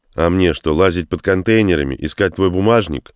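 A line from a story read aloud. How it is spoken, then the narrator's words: Sharp. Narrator (Russian): резко ответил комендант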